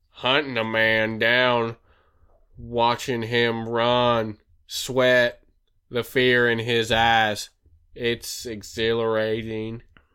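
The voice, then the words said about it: Put-on Western drawl villain voice. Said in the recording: “Western accent. ... That was a good job.”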